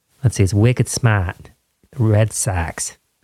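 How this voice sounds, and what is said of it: Bad put-on Boston accent. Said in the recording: “I have a terrible Boston accent.”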